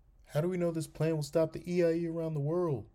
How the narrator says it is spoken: A single voice in the crowd cried out

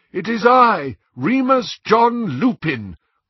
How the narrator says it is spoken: called a voice over the howling wind

